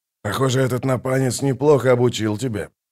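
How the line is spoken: Muttering bird. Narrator (Russian): пробормотал скворец

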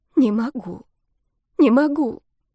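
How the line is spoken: Sobbing whisper. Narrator (Russian): девушка вдруг всхлипнула и прошептала

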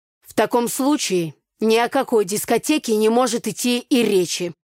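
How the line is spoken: Stern, father speaking. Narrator (Russian): строго сказал отец

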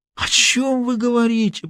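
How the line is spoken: Groaning. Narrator (Russian): простонал Аркадий Дмитриевич

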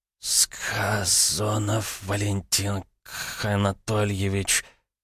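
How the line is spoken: Strained wheeze, man. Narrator (Russian): с натугой прохрипел мужчина

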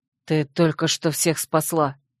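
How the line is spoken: Quiet reply. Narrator (Russian): так же тихо ответил Вервульф

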